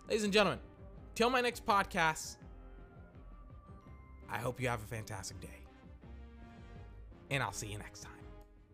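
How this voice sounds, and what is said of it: Tired, worn-out voice. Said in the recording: “I'm very tired. My voice is tired.”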